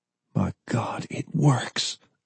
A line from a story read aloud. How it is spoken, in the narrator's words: Forrest gasped